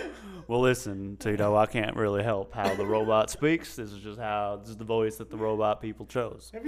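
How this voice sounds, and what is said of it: Usual voice. Nothing is said of it.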